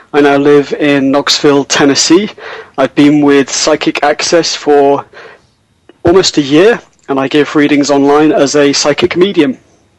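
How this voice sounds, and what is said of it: Speaks with a noticeable accent. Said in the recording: “With such a dishy accent.”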